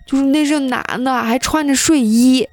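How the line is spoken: Heartbroken sobbing. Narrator (Chinese): 他闺女这个时候就已经哭得撕心裂肺了，说

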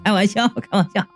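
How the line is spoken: Laughing. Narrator (Chinese): 我马上就笑着说道

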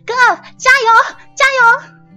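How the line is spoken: Loud. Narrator (Chinese): 纪晓鱼大声的说

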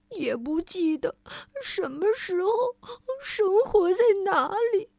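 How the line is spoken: Choked up. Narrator (Chinese): 他哽咽着说

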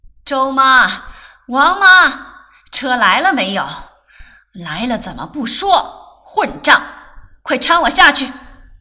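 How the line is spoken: Shouting. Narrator (Chinese): 他就喊

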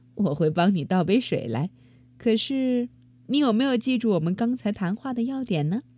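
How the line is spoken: Smiling. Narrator (Chinese): 妈妈笑着说

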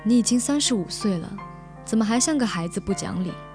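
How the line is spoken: Calm, detached. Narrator (Chinese): 老周淡淡的说

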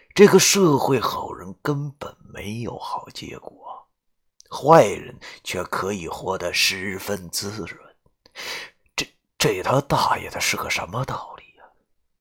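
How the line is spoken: Lamenting. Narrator (Chinese): 感叹道

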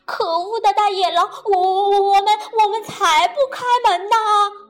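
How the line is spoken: Shouting from inside. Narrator (Chinese): 小猪在里面喊道

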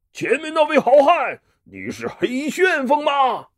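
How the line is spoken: Loud shout. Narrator (Chinese): 他大声叫道

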